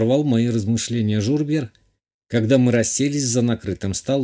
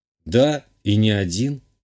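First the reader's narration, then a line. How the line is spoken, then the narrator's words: Calm reply. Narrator (Russian): спокойно ответил я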